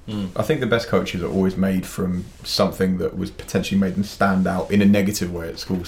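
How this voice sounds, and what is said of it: Posh-sounding English accent. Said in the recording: “I don't sound a thing like any of my family ... I sound a bit posh”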